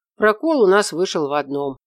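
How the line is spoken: Sighing. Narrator (Russian): вздохнул Наполеонов

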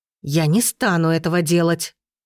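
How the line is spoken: Growled reply. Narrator (Russian): прорычала она в ответ

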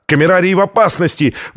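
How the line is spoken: Scientist crying out. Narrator (Russian): выкрикнул ученый

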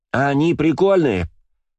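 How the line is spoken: Shouted into ear. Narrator (Russian): сказала, а точнее прокричала Ева мне на ухо

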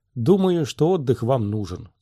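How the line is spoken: Plain. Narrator (Russian): сказал он

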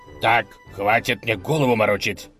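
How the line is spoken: Angry barking. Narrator (Russian): рявкнул разгневанный князь

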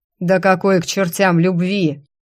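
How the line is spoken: Demon's vicious growl. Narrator (Russian): злобно рыкнул демонюга

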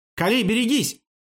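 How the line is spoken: Shout. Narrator (Russian): выкрикнул Амир

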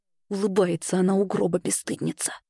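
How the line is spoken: Hiss. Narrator (Russian): прошипела

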